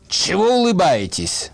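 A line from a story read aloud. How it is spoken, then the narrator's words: Shouting. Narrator (Russian): гибист тут закричал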